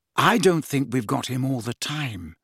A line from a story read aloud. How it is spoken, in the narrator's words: said Hermione very quietly